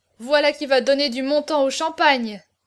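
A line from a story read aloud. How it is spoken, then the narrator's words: Exclaiming. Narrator (French): s'écria Auriol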